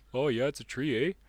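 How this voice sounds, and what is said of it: Poor put-on Canadian accent. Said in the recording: “My Canadian accent sucks.”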